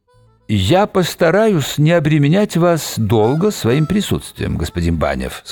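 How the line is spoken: Plain. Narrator (Russian): сказал он

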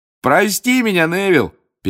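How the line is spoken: Shouting over laughter. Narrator (Russian): перекрывая всеобщий хохот, крикнул Фред

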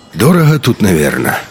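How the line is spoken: Sighed. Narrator (Russian): вздохнул Хохол

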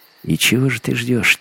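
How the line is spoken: Quiet. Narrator (Russian): тихо проговорил Вим

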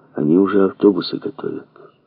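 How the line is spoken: Quiet. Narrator (Russian): сказал ему негромко

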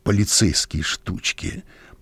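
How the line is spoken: Bitter grumble. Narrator (Russian): проворчал он с горечью

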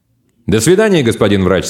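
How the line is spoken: Cheerful. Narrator (Russian): сказал Гак весело

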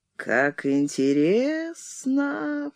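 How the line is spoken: False sing-song. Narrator (Russian): фальшивым голосом пропел Мишка

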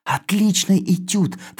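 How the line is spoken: Hurried whisper. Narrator (Russian): торопливо шепнул я

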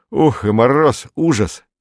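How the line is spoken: Cheerful. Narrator (Russian): сказал он весело

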